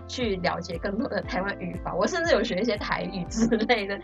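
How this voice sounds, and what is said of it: Taiwanese Mandarin accent. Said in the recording (Chinese): “你一开口的时候，我发现为什么你讲话跟台湾人一模一样哎？”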